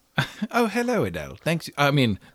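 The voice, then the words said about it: Put-on English accent. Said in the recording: “Why are you talking in an English accent”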